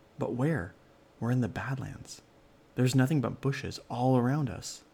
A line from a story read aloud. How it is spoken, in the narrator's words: exclaimed Ellery